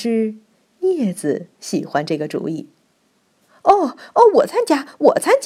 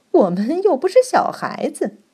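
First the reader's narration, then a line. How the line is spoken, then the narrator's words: Contemptuous sneer. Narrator (Chinese): 浅棕色橡胶绷带轻蔑的嘲笑说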